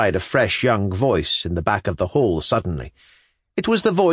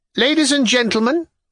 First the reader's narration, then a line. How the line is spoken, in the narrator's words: cried Karamazinov